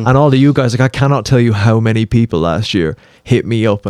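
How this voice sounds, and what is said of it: Speaks with a noticeable accent. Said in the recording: “I hear an accent.”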